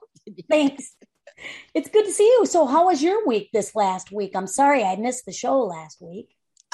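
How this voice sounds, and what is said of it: Voice still recovering from illness. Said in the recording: “as you can tell by my voice, it's, you know, it's coming back”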